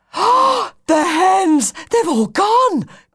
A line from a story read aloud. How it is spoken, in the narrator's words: gasped Charlie